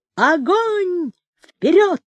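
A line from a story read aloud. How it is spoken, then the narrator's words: Thin, high shout. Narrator (Russian): Проценко тоненько крикнул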